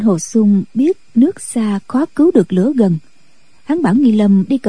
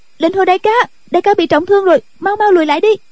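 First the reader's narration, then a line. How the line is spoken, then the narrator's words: Shouted. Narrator (Vietnamese): Cô la lên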